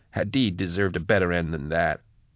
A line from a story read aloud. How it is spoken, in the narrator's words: said miserably